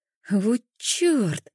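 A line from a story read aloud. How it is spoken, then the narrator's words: Silent inner whine. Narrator (Russian): заскулила внутри себя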